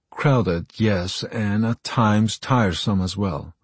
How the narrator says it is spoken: his wife said

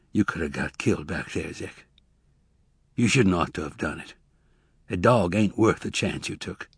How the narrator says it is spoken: Tobias said weakly

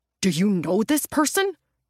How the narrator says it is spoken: Roger spluttered

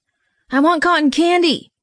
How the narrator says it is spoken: he said loudly

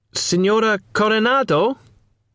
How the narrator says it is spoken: I asked, raising my voice, in case the poor thing was deaf, half-witted, or both

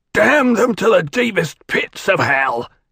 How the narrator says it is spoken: he shouted

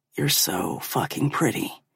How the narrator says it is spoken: whispers

